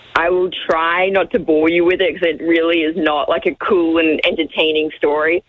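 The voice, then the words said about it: Australian accent. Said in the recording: “hearing your voice ... the Australian accent”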